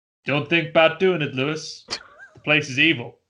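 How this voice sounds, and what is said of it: Put-on Southern accent. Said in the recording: “Will I be cancelled if I do a southern accent?”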